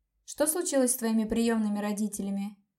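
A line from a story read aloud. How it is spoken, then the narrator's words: Plain. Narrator (Russian): спросила я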